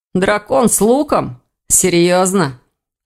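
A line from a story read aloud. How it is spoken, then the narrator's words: Cold, smirking snort. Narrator (Russian): хмыкнул Элгар, искривив усмешки, посиневшие от холода губы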